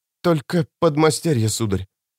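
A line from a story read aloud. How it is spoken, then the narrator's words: Woman hesitant, slightly trembling. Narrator (Russian): на миг замешкавшись, ответила женщина чуть дрогнувшим голосом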